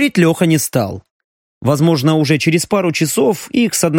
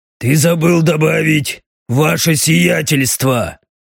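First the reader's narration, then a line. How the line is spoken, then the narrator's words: Displeased, through teeth. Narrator (Russian): Недовольно процедил Даррен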